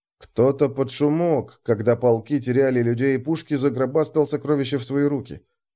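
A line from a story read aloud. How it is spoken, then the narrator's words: Muttering. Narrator (Russian): пробормотал я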